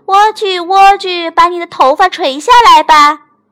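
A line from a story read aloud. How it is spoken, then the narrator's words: Calling up loudly. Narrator (Chinese): 她冲着塔顶喊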